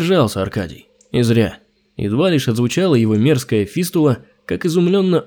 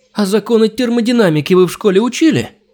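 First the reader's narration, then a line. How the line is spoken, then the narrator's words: Shrill, cracking shout. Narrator (Russian): Вопрос был выкрикнут, что называется, петушиным горлом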